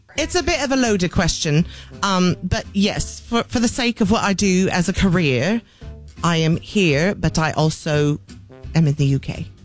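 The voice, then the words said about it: English accent. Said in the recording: “you're speaking to me in an English accent.”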